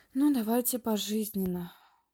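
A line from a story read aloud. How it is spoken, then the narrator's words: Martyr's sigh. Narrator (Russian): вздохнул мученик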